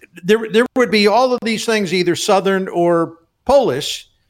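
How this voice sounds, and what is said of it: Slight Baltimore accent. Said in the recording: “a little bit of the Baltimore accent came out in you there”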